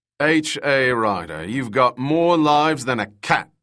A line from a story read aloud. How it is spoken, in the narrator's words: the captain boomed